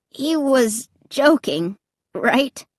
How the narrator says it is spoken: Clay asked in a trembling voice

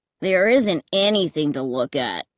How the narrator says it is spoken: Clay grumbled

